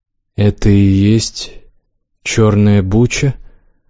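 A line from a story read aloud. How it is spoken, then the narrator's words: Gloomy question. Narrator (Russian): мрачно спросил Лукс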